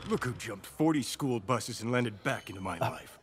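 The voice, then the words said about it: Imitates another person's voice. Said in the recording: “I thought that was Keanu Reeves for a second ... very good impression.”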